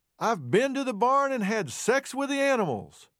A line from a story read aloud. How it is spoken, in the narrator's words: shouted